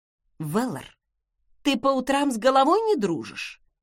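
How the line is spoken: Indignant exclamation. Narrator (Russian): Возмущенно воскликнула

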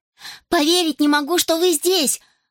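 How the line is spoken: Exclaiming. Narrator (Russian): воскликнула Росс

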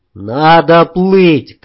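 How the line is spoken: Shouted. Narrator (Russian): крикнул я девчонке

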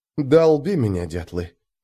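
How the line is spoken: Whispered curse. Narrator (Russian): прошептал ругательство

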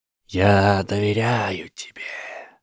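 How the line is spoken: Hissing. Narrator (Russian): прошипел он

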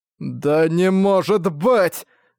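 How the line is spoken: Stammering in disbelief. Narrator (Russian): Как будто не веря в происходящее, Херген начал, запинаясь, говорить

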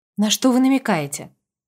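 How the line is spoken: Even question. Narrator (Russian): Ровным голосом спросила сестра

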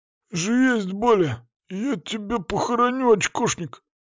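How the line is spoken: Wheezing. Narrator (Russian): сипел рюкзак

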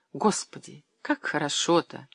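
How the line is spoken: Quiet speech. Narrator (Russian): тихо произнесла Люба

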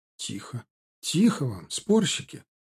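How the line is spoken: Exclaiming. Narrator (Russian): воскликнула Анна

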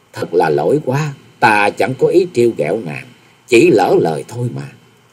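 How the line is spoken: Smiling apology. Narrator (Vietnamese): Nhậm Xưng Bạch chàng mỉm cười nói

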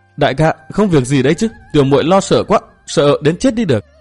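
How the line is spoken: Frightened, trembling voice. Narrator (Vietnamese): Hàn Thiên Thiến vẻ mặt vẫn còn sợ hãi, giọng run run đáp

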